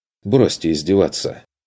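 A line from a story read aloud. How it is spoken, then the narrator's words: Irritated snapping. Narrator (Russian): огрызнулся он раздраженно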